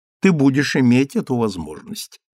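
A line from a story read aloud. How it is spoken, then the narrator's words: Plain. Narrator (Russian): ответила леди Освельд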